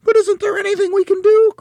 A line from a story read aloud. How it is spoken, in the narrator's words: cried Mrs